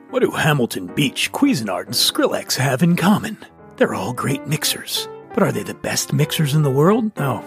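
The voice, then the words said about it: Radio announcer voice. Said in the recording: “in a radio announcer voice. ... Back to my regular voice.”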